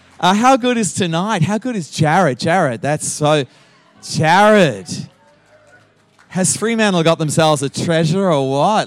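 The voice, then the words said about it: Australian accent. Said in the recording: “I sound like an Australian because I haven't lost my Aussie accent.”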